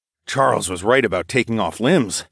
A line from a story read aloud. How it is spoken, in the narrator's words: I muttered